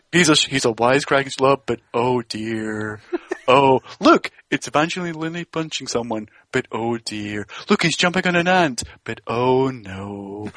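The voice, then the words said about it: Gloomy Eeyore-like cartoon voice. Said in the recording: “It's like Eeyore's fucking editing trailers. ... you did a really good Eeyore imitation there”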